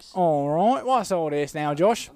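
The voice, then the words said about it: Put-on British accent. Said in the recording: “if you have to commentate it in a British accent, you have to say, what's all this?”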